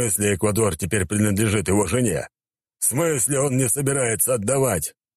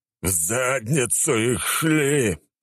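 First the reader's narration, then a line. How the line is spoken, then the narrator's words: Emperor's growl. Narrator (Russian): прорычал император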